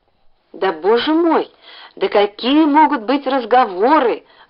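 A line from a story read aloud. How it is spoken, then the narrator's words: Exclamation. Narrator (Russian): воскликнула Стеша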